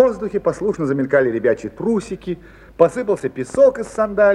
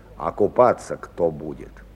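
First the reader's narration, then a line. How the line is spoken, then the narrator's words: Gloomy mutter to himself. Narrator (Russian): Хмуро бормотал он как бы про себя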